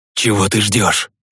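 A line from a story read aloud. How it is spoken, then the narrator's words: Hissing. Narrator (Russian): прошипел Евгений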